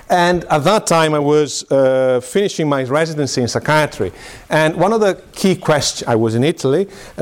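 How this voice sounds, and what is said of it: Italian accent. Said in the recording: “I'm Italian, by the way. I'm sure you can pick up my terrible English and accent.”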